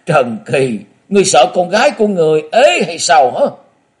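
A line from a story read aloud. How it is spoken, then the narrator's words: Loud laughter. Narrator (Vietnamese): Quái khất Nhiếp Phi bỗng cười lớn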